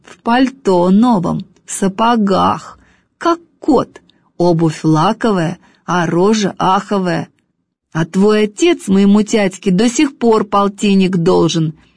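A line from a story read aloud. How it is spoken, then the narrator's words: Through gritted teeth. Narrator (Russian): Сквозь зубы возражаю я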